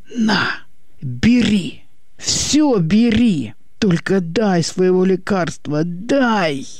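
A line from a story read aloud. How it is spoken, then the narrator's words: Hoarse strangled hopeless threatening whisper-shout. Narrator (Russian): Сиплым сдавленным шепотом выкрикнул уже без надежды, но с угрозой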